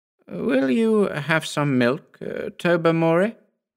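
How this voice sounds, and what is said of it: Rather strained voice. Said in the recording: “in a rather strained voice.”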